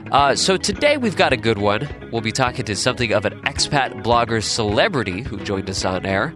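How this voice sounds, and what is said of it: Congested voice from a cold. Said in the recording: “I'm fighting a bit of a cold right now, so my voice is sounding a little bit funny”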